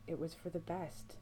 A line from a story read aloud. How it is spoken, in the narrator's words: Sam whispers towards the floor